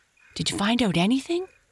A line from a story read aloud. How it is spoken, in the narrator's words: asked Happy Jack eagerly